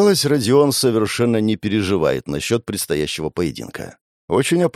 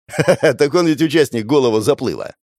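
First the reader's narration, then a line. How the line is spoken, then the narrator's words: Chuckle. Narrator (Russian): хохотнул Серафимов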